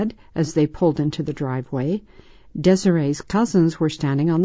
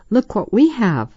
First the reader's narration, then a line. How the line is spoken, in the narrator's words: the girls exclaimed